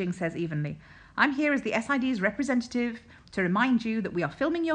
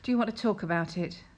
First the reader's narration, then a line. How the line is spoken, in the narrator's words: Lin Jing asks with a sigh